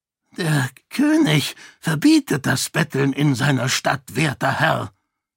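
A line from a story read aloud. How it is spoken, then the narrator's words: Croaking man. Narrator (German): krächzte der Mann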